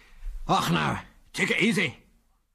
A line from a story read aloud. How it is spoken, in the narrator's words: said a strange voice in a strong Scots accent